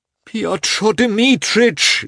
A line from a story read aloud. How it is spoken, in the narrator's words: Lievin again began in a piteous voice